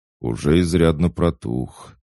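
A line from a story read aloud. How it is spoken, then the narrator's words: Gloomy. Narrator (Russian): мрачно изрек Даггер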